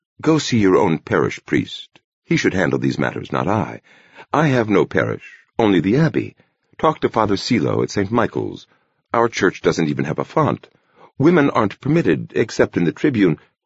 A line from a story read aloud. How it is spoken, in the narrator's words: he put in gently